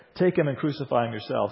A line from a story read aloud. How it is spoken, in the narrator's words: sarcastically says